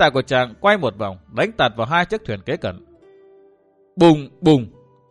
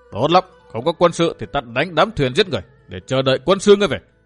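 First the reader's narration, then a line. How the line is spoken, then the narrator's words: Thunderous shout. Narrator (Vietnamese): Dương Viễn hét to như sấm nổ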